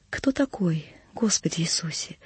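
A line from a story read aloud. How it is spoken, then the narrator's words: Whisper. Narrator (Russian): услыхал я шепот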